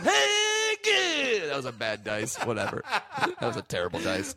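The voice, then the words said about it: Jay Mohr doing Dice impression. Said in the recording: “I'm doing Jay Moore doing dice.”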